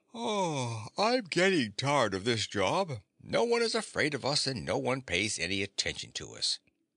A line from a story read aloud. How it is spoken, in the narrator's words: the lion yawned and said to his friend